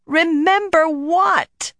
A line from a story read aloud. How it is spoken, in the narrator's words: Nynaeve practically wailed